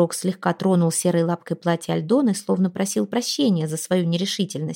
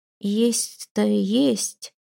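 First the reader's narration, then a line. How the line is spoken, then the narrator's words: Uncertain troll. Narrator (Russian): неуверенно ответил тролль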